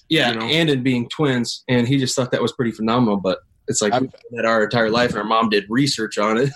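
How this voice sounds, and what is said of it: Slight twangy accent. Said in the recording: “you guys have a decent little accent going on. You guys got a little twang to you.”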